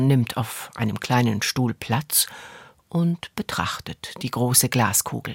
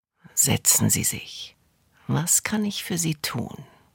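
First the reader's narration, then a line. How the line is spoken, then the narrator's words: Quiet murmur. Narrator (German): Sie murmelt leise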